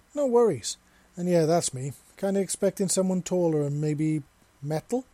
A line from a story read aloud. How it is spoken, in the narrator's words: Seven said, and a little sarcastically